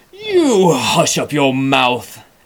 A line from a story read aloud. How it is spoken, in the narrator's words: howled the mighty King Yertle